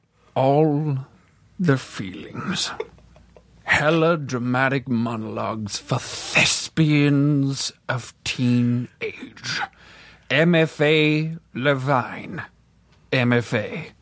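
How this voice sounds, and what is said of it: Theatrical, dramatic reading voice. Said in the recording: “a spectacular read of the full title ... put on a theatrical voice”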